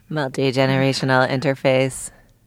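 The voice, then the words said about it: Robot voice. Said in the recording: “It would be funny to hear you say that in robot voice.”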